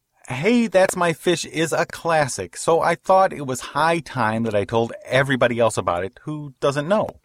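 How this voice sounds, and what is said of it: Childlike put-on voice. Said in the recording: “You're going to talk like a child while you... I'm going to talk like a child.”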